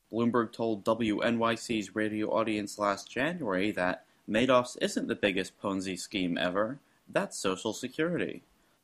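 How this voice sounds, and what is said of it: Public radio newscaster voice. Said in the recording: “is that your idea of what public radio news delivery sounds like? ... I practiced my radio voice. ... It was fantastic ... That was so right out of All Things Considered.”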